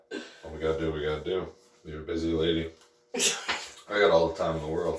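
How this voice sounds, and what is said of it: Tired early-morning voice. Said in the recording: “you can tell in my voice it's early ... It's 4 in the morning.”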